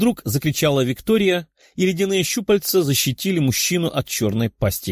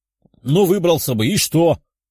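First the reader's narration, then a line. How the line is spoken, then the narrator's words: Barked command. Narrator (Russian): рявкнул командир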